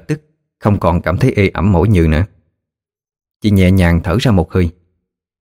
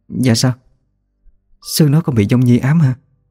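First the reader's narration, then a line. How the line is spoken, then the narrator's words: Trembling question. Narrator (Vietnamese): Chị run rẩy hỏi lại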